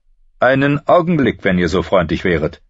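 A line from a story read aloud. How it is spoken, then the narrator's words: Calling after someone. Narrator (German): rief er Ned hinterher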